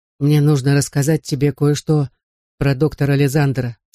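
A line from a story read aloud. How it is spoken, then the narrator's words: Plain, father. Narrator (Russian): сказал мне отец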